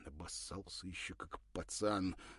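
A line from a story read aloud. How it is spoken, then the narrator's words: Angry mutter. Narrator (Russian): пробормотал зло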